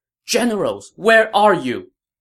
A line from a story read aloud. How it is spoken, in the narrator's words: Lady Xu shouted